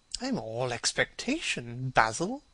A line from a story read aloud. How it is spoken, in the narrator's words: murmured his companion